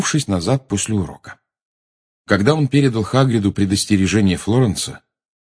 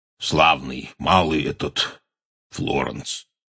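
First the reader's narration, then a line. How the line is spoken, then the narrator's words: Hoarse. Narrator (Russian): хрипло сказал он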